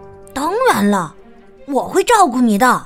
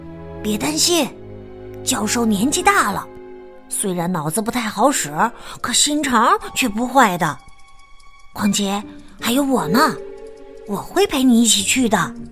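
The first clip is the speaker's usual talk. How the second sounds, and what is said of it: Whispering, quiet voice. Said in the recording (Chinese): “小声说”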